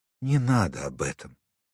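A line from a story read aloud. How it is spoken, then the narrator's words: Quiet. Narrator (Russian): тихо сказала Вера Андреевна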